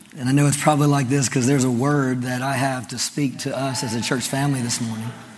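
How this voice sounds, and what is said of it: Voice deeper than usual. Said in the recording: “My voice has got a little deeper ... It's just the way my voice sounds.”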